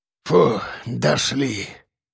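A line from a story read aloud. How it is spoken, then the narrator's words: Breathless exhale. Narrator (Russian): выдохнул Ефим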